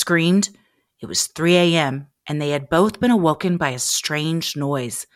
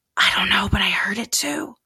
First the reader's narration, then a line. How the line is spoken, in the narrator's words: James whispered